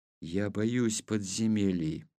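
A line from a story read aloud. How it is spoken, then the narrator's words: Whispering. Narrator (Russian): прошептал Петр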